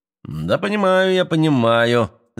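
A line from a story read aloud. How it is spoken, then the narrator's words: Laughing. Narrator (Russian): засмеялся Кашко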